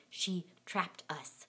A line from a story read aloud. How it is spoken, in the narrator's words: my friend's sister hissing